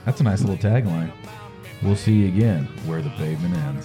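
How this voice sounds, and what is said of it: Put-on radio announcer voice. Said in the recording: “I put my radio voice on for that too.”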